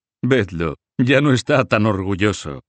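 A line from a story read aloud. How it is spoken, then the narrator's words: Laughing. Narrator (Spanish): decían unos riendo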